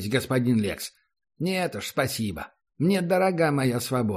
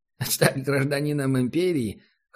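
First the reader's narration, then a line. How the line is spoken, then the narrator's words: Short laugh. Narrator (Russian): хохотнул провожатый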